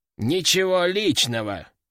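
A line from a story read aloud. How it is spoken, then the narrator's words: Quiet growl, small demon. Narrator (Russian): тихо прорычал демоненок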